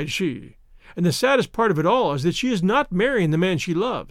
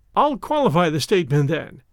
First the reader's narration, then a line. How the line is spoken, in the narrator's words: answered, with a laugh